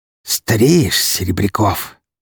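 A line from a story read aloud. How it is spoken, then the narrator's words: Snake-like hiss. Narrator (Russian): прошипела словно змея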